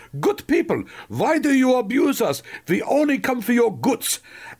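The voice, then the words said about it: Thick put-on German accent. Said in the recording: “she did have a rather thick German accent ... when I do my impression of her, which is more like Sergeant Schultz from Hogan's Heroes”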